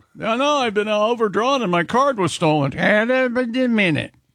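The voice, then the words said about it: Put-on unfamiliar regional accent. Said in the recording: “There's an accent out there that sounds like this a little bit, and I don't know where they're from ... it sounds like Lawrence Welk back in the day? ... Wasn't he from North Dakota or something?”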